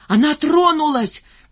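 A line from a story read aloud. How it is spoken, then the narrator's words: Shouted. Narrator (Russian): крикнул Рыжий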